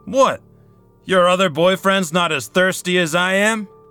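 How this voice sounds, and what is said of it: Loud, raised voice. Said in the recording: “Lower your voice.”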